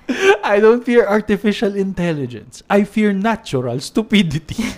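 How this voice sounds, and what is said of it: Poor attempt at Mexican accent. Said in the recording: “That's my very poor Mexican accent ... It doesn't sound Mexican ... you more of sound like Italian”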